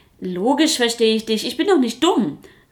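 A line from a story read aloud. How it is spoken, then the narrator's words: Little tiger calling. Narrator (German): rief der kleine Tiger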